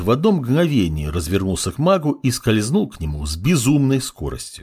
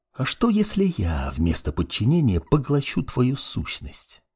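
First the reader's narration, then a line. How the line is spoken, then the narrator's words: Whispering. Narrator (Russian): Продолжал шептать темный маг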